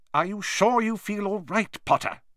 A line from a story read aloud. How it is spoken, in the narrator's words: said Professor McGonagall sharply